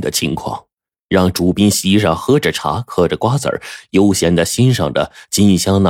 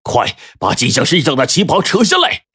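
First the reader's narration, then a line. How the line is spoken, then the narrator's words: Shouted order. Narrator (Chinese): 他的喊声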